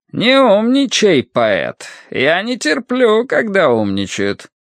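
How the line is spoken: Strange high accented voice. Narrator (Russian): своим странным высоким голосом с акцентом Рошань сказал

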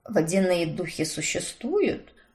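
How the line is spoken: Muttered into ear. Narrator (Russian): Пробормотал мне на ухо Уильям

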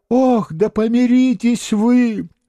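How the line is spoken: Moaning. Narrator (Russian): стонал воевода

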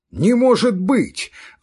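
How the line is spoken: Shocked shout. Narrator (Russian): закричал он при известии о том, что Лора сошлась с Милеевым и бросила Фертингофа

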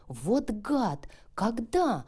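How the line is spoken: Exclamation. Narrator (Russian): воскликнула Лия

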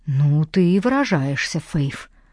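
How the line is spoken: Muttering. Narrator (Russian): пробормотал Кейт

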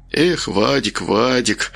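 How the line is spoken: Muttered. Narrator (Russian): пробормотал он

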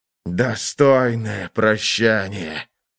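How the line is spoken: Murderous hiss. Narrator (Russian): прошипел воин, и в его черных-причерных глазах играла жажда убийства

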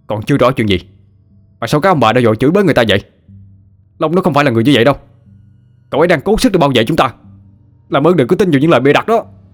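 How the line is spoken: Uncontrolled yelling. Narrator (Vietnamese): không kìm được mà chạy ra trước mặt đám đông cho gào lên

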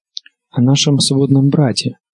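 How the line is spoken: Soft, precise correction. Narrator (Russian): поправилась Санса мягко и точно

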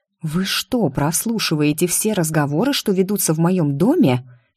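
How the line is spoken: Venomous hiss. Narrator (Russian): Шипохвостой мумамбой зашипела я на Гилмора

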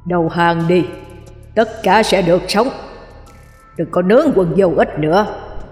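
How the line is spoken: Stern. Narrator (Vietnamese): Ông Năm nghiêm giọng nói

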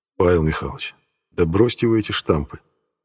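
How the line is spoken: Sighing. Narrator (Russian): вздохнул

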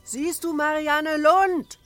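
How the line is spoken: Shouting. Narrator (German): schrie Michel

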